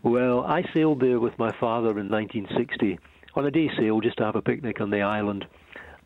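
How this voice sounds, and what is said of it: Non-English regional accent. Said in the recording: “Sounds good in your accent ... in your accent, murder. It's so resonant to the English ear.”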